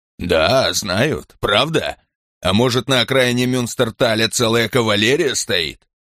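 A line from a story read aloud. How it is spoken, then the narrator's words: Loud guffaw. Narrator (Russian): Ланкао громко заржал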